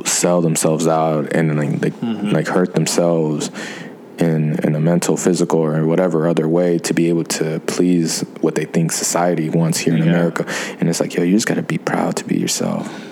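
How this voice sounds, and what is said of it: Hoarse, lowered, quiet voice. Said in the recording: “Why is your voice all sexy all of a sudden? ... You just lowered it. ... My voice has been hoarse all week, man. So I'm not trying to like talk too loud either.”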